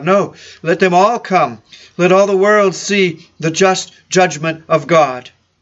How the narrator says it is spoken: he cried out aloud

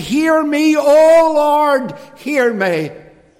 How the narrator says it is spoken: cried and he said

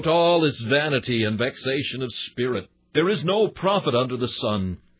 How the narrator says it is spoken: Solomon ate thereof, till he cried out

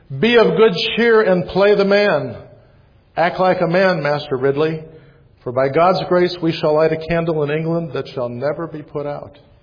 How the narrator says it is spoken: He yelled to his friend

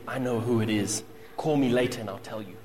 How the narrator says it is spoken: One woman leaned over and whispered to her friends

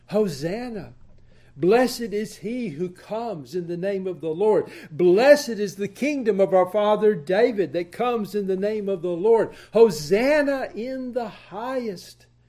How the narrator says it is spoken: the multitudes had cried out

